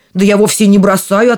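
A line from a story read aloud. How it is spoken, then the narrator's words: Grumbling giant. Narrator (Russian): отвечал первый великан и стал ворчать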